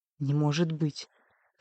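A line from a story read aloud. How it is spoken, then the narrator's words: Noisy exhale. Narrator (Russian): Лилафея шумно выдохнула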